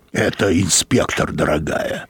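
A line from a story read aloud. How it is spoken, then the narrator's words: Creaky voice. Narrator (Russian): проскрипел Мозес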